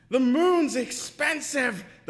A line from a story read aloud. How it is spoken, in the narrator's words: the people yelled back at her